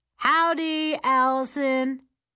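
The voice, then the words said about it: Thick southern drawl, hollered. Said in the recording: “He hollers back in a thick southern drawl.”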